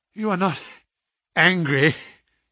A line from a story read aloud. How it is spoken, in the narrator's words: he asked, gasping for breath